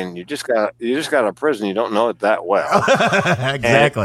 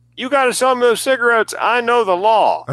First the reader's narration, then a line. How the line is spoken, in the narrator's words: he screams at the clerk